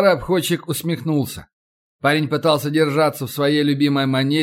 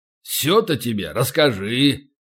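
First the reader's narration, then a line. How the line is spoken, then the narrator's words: Grumbling old man. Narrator (Russian): проворчал старый обходчик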